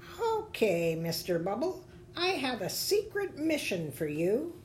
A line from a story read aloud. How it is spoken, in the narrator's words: A squeaky voice said